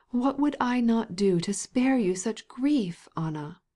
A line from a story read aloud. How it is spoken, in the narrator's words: he said